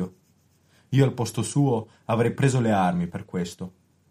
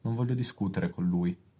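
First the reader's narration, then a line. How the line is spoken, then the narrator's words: Sad trembling voice. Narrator (Italian): profonda tristezza, dicendo con voce tremante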